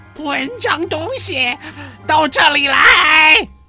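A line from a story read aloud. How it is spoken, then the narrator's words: Hoarse, cruel voice. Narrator (Chinese): 他的声音沙哑，充满了残忍的气息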